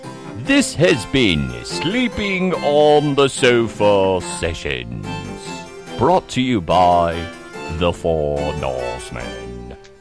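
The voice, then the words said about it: Bad put-on British accent. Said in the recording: “Worst British accent.”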